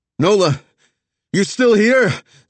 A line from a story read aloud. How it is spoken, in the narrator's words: Zig called out